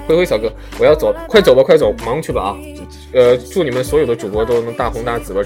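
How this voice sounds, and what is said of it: Slight Northeastern Chinese accent. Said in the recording (Chinese): “主播，你有点东北口音啊！”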